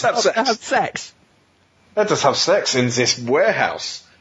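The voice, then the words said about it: Fake German accent. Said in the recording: “you've got stuck on fake German accent, haven't you? Yeah, you need to reset your accent module.”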